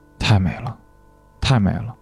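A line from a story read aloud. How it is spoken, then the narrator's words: Enraptured murmur. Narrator (Chinese): 他沉醉地喃喃自语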